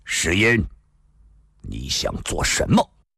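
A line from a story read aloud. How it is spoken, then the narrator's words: Sudden stern voice. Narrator (Chinese): 突然有一人厉声说道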